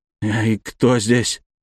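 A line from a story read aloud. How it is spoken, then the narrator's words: Trembling question. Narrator (Russian): дрожащим голосом спросил Страхов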